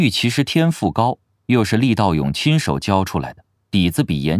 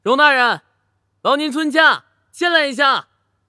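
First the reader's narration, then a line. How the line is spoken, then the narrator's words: Calling out. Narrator (Chinese): 他叫道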